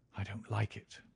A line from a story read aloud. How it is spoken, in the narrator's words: he whispered, putting his lips to my very ear